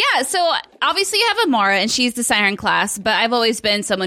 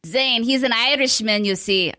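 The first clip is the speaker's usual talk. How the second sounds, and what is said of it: Bad put-on Irish accent. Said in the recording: “I don't know what accent that was. That was so awful and terrible. I am so sorry to my friends across the pond that I have offended.”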